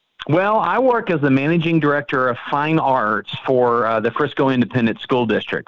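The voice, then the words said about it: Slight Texas accent. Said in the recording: “I am from Frisco, Texas. ... I heard a little y'all in there ... there's always a little bit of an accent”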